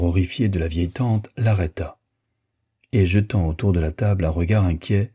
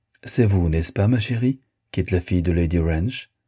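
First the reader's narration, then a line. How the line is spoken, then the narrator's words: Friendly tone, princess. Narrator (French): continua d'un ton aimable la princesse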